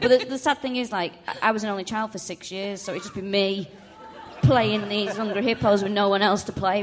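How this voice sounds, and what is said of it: Usual voice. Nothing is said of it.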